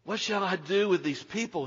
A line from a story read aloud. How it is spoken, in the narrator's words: Moses cried out to God